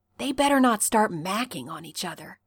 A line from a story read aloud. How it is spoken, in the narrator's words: he whispers